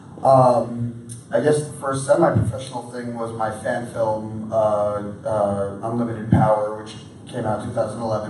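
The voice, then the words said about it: Strained, worn-out voice. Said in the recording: “my voice is a little shot”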